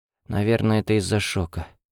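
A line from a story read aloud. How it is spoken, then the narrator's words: Muttered to herself. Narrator (Russian): пробормотала Эва, обращаясь скорее к самой себе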